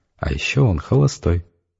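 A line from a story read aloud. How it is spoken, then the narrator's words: Happy giggle, very quiet. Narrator (Russian): Олечка радостно захихикала и совсем уже тихим голосом добавила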